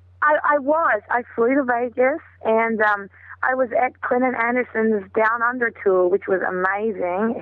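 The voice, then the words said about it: Hoarse, lost voice. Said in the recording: “that's why I lost my voice”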